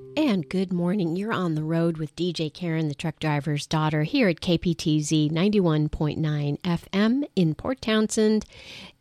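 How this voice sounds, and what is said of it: Slightly strange voice, cold. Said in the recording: “My voice is going to sound a little bit strange because I'm still getting over a little bit of a summer cold”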